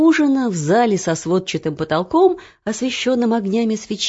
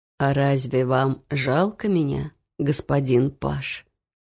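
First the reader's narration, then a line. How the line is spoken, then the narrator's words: Sad, smiling. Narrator (Russian): Печально улыбнулся он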